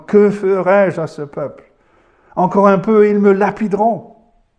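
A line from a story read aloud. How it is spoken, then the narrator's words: Cried out. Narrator (French): Moïse cria à l'Éternel en disant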